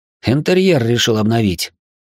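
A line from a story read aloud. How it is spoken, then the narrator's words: Snorted. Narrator (Russian): хмыкнул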